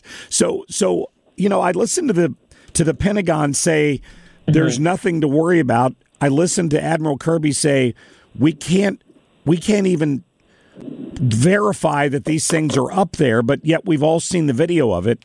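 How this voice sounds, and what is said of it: Slightly rough, hoarse voice. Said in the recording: “Apologize for my voice being a little rough from this cold that I'm fighting.”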